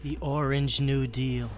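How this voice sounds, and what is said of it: Donald Trump impression. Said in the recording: “your Trump impression is kind of startlingly good”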